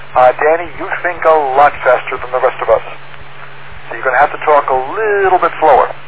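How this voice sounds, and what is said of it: Regional accent. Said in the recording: “my accent's a little bit different than yours”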